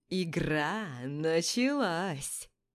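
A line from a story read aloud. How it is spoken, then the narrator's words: Singsong chant. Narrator (Russian): Нараспев произносит Зак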